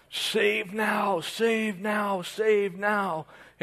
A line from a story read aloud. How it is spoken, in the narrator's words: Jesus at that time yells out